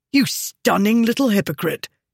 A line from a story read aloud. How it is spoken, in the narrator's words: he said angrily